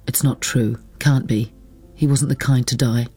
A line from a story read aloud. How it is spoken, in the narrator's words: said, her voice hard, unmusical, not her own